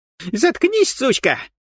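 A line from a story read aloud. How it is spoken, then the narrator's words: Shrieking young man. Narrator (Russian): натуральным образом завизжал парень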